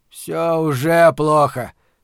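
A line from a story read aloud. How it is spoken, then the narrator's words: Grumbled, security chief. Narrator (Russian): проворчал Торсит Магнессон, начальник управления общественной безопасности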